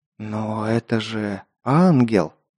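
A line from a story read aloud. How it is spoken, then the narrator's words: Spellbound whisper. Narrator (Russian): Завороженно прошептал я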